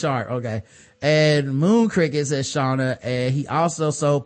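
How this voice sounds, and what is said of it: Usual voice. Nothing is said of it.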